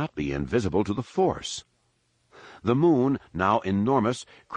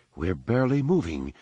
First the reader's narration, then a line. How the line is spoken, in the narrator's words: the mayor commented calmly